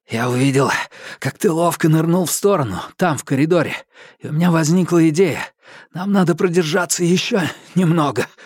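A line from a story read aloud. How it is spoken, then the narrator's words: Breathless wheeze. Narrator (Russian): с перерывами на глубокие вдохи прохрипел он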